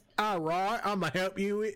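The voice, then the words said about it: Put-on British accent. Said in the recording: “But in a hot British accent. ... You just went ahead and did it anyway.”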